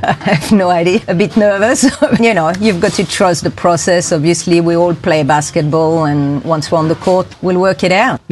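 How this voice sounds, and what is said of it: Swiss European accent. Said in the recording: “you've got a European accent there ... From Switzerland.”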